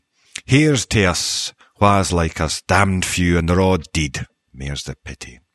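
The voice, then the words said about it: Soft Scottish accent. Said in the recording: “my softer Scottish accent”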